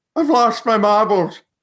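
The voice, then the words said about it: Whistly toothless old-person voice. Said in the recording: “When you do a Toodles impression though, you have to like whistle through the sides of your mouth like an old person does because they're lacking teeth ... That was better than your Maggie Smith impression”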